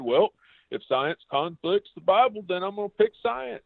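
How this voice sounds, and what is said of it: Put-on country accent. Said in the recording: “I went country accent just now. I'm making fun of my own heritage.”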